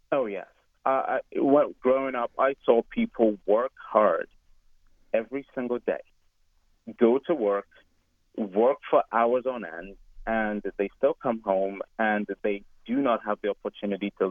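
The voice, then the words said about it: Foreign, non-American accent. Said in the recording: “you come from a community of people who maybe have not been in the United States for generations ... my accent might have given it away”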